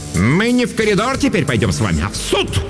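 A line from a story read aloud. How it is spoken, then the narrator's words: Barking. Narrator (Russian): рявкнула Дурцева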